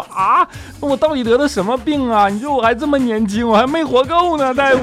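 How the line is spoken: Crying, pleading. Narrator (Chinese): 他就哭着跟大夫说

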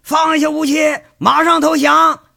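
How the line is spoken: Many voices shouting. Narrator (Chinese): 好几十人同时在喊

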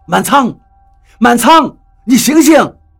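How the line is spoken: Startled, urgent shout. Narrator (Chinese): 我吃了一惊，用手搂住他的脖子喊道

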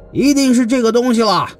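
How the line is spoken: Clamoring crowd shout. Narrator (Chinese): 众人鼓噪呐喊，说

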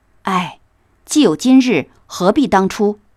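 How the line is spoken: Regretful sigh. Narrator (Chinese): 宝玉在身后叹道

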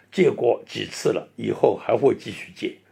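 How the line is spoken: Wry, rueful. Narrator (Chinese): 他们苦笑着回答

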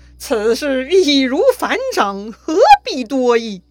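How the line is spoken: Loud laughing. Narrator (Chinese): 旁边又有人拍手大笑了，说

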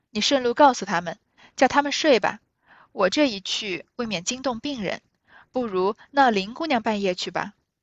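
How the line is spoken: Laughing. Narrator (Chinese): 湘云笑道

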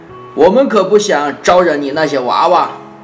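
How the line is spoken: Grandfather speaking loudly. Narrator (Chinese): 爷爷大声地说

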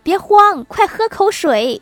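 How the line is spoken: Calling out. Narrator (Chinese): 郭大嫂看见老公十分紧张，便喊

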